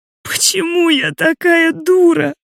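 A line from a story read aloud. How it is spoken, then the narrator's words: Sobbing. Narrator (Russian): всхлипываю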